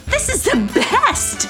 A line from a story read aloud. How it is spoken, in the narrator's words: laughed Sarcasta in delight